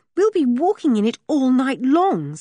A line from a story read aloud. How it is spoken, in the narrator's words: said Julian desperately